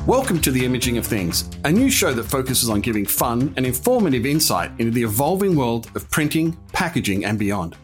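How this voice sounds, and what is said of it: Noticeable natural accent. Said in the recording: “yes, the accent is as real as the conversation you're about to hear”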